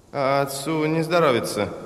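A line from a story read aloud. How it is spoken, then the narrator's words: Mumbled. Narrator (Russian): промямлил Вюрмс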